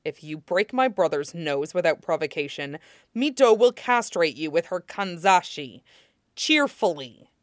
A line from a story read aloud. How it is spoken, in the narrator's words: says sharply